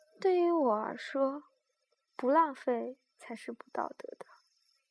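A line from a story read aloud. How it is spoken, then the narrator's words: Soft, dismissive. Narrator (Chinese): 风平不以为然，半闭着眼睛在座位上轻声道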